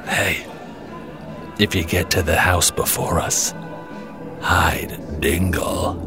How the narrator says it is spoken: my dad, whispers in my ear

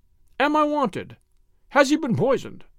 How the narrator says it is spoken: the motionless doctor in the garden came running, cried

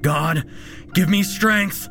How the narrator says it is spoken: He shouted aloud as the monster closed in on him

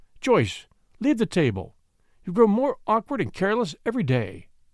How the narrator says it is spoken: Grandmother Marshall said sharply

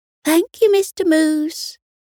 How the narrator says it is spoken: they all chirped together

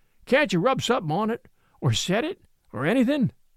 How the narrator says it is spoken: says with a groan

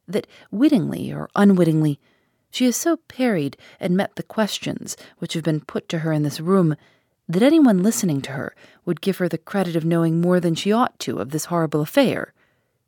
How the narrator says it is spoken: she firmly returned

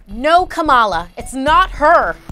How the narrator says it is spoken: Elena shouted

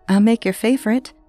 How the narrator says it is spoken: said

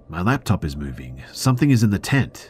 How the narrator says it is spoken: my girlfriend started exclaiming

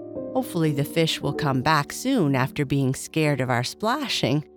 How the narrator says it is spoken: Kai Kai said with a laugh

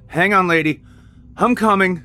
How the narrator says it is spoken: he yelled back

